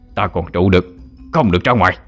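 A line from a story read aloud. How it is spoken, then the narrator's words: Loud shout. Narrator (Vietnamese): thầy Tám đã kịp quát lớn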